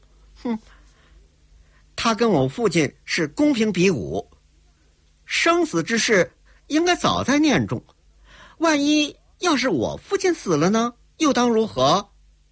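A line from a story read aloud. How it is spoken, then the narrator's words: Sneering. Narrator (Chinese): 铁小薇冷笑着说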